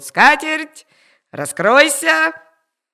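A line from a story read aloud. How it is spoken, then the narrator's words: Old man shouting. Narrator (Russian): кричал старик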